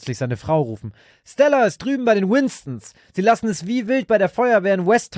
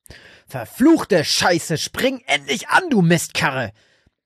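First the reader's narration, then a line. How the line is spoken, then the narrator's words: Bellowed. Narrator (German): brüllte Frank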